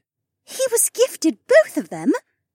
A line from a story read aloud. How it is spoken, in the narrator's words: Shay gasped